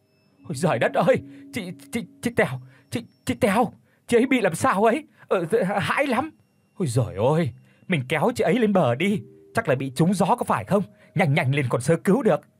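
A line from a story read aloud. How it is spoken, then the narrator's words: Stammering, barely audible. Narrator (Vietnamese): lắp bắp không có thành tiếng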